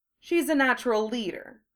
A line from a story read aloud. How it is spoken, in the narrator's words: Draco said